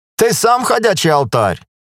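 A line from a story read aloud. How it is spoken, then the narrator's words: Laughing. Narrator (Russian): рассмеялся Иван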